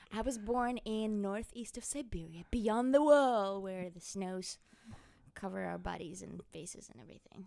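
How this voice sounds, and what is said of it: Russian accent. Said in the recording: “your accent ... Magadan, Russia, Siberia.”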